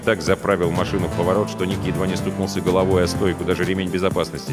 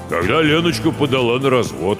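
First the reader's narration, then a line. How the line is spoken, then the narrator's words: Deep bass voice. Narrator (Russian): пробасил Гоша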